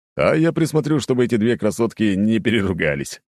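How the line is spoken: Chuckling. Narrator (Russian): хохотнул Володя

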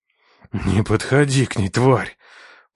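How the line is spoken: Hoarse rasp. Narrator (Russian): прохрипел

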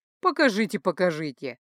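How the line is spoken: Snorting. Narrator (Russian): хмыкнул Ранрео

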